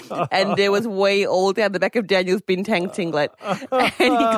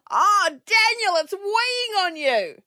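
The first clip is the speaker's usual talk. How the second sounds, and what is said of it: Broad Australian Perth accent. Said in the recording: “In the broadest Perth accent you've ever heard.”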